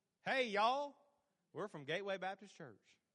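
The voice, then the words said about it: Put-on country accent. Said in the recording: “That country accent.”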